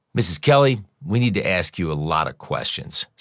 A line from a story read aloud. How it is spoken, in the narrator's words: said Andrews